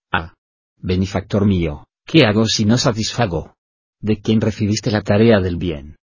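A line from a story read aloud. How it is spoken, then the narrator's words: Plain. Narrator (Spanish): preguntó el amigo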